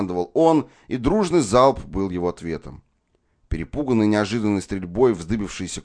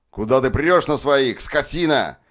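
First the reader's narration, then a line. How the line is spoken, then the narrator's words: Shouted. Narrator (Russian): крикнул он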